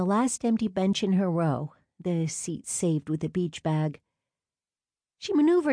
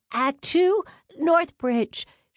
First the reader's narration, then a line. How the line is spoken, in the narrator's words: she shouted to the tops of her sneakers